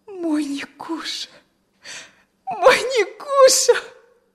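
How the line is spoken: Sobbing, crying. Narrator (Russian): всхлипнула она и заплакала

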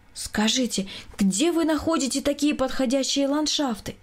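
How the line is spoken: Woman's exclamation. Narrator (Russian): воскликнула жена Николая Николаевича

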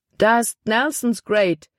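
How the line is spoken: Exclaiming. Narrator (German): rief aus

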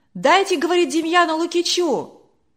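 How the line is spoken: Shouting from crowd. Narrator (Russian): кричали из других рядов

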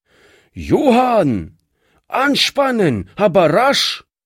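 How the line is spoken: Calling across the yard. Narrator (German): rief er über den Hof hinüber

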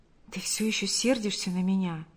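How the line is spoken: Whisper. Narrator (Russian): прошептал Павел

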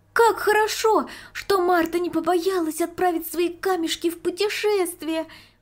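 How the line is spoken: Exclaiming. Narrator (Russian): воскликнула Марийка

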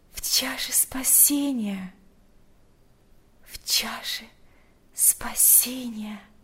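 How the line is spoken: Whisper. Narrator (Russian): прошептала Марфа

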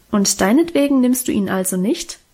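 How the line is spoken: Plain. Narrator (German): fragte Mutter

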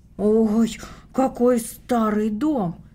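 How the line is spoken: Exclaimed. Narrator (Russian): воскликнула Таня

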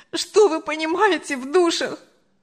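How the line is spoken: Sobbing. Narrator (Russian): Анжела уже рыдала

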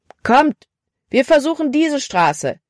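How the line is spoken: Calling out. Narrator (German): rief Caleb

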